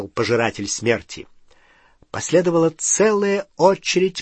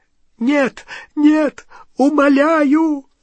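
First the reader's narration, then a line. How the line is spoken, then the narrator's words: Choking sobs. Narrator (Russian): захлебывался рыданиями Ксенофилиус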